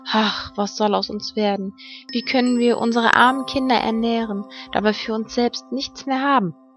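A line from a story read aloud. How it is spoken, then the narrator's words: Sighing, worried. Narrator (German): seufzte er und sprach zu seiner Frau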